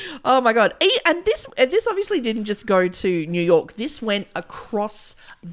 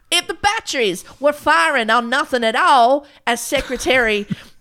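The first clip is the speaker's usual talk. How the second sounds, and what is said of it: Put-on Southern US accent. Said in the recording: “This went straight back to a southern accent.”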